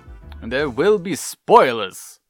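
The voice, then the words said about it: Matt Berry impression. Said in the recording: “your Matt Berry impression”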